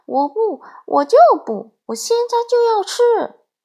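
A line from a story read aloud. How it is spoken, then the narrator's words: Loud insistent clamoring. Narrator (Chinese): 小鹦鹉大声嚷嚷着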